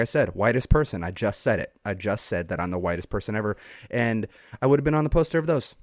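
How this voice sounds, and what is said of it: Usual voice. Nothing is said of it.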